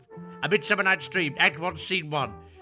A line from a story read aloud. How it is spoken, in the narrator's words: bellowed Mr